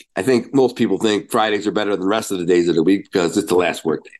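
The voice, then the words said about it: Nasal, congested voice. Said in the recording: “You got a bit of a cold, so if I sound a little nasally, I apologize.”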